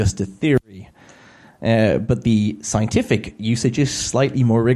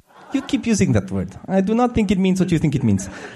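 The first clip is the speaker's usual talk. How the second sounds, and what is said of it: Poor put-on Spanish accent. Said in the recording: “my terrible Spanish accent”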